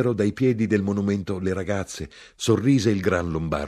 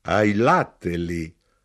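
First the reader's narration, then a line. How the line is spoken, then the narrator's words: Remark with laughter. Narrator (Italian): osservò l'arrotino e rise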